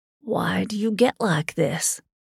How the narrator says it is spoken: he whispered

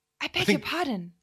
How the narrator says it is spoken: she cried breathlessly

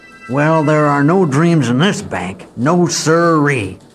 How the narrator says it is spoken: grumbled old Hockaday

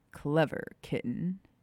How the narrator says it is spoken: Sirius chuckled

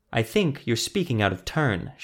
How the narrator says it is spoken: she said

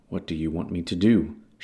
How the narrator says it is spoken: she asked quietly, then defiantly

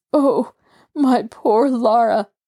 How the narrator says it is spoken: he half sobbed

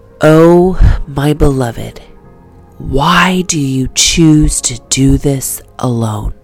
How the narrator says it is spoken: say in a gentle yet strong whisper

